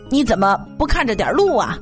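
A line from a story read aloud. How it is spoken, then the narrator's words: Angry shout. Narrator (Chinese): 冰激凌小贩生气的喊道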